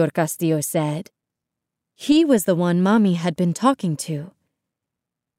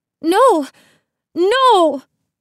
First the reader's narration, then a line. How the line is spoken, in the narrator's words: Isabel cried